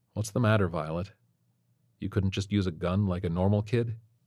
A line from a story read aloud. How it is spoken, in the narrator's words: To himself, Detective Dorgan muttered